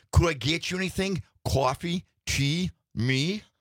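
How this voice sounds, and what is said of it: Put-on New York accent. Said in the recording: “With a real New York accent.”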